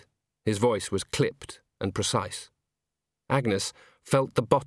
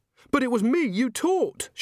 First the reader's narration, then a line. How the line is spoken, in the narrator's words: she said desperately